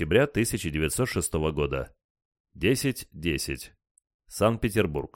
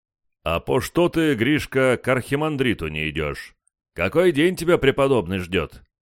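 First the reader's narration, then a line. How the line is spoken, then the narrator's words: Monk's deep bass. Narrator (Russian): пробасил один из монахов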